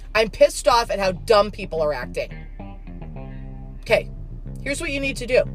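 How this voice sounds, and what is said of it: Angry, heated speaking voice. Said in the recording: “I sound angry, because I am”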